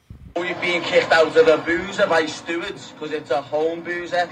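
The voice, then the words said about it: Thick English accent. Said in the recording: “how English are these guys? How British are these guys? ... Thick. Yeah, accent.”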